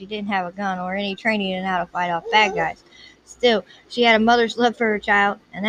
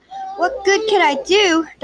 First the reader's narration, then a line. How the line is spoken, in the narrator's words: Darcy practically yelled